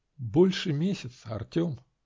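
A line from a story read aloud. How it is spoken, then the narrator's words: Quiet. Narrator (Russian): Начала я тихо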